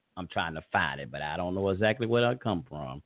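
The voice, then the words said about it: Southern American drawl. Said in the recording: “I got this old southern drawl”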